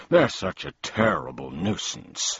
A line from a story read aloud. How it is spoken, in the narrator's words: sighed the mathemagician